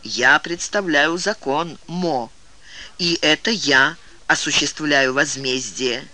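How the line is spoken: Slow. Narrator (Russian): медленно произнес

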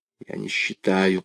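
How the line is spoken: Whispered. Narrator (Russian): прошептал Игорь

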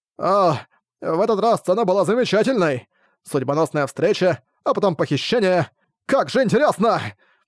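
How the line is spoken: Loud contorted shout. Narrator (Russian): Лицо Арка искривилось, когда он крикнул на весь лес

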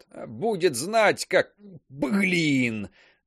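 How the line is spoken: Strained wheeze. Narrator (Russian): Только и смог просипеть

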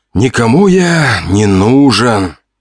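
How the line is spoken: Sigh. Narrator (Russian): вздохнул

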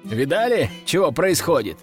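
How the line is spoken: Chuckling. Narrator (Russian): хохотнул я

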